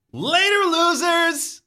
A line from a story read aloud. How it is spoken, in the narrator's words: You shout at them